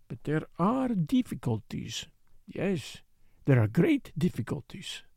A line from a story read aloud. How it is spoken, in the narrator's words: he murmured to himself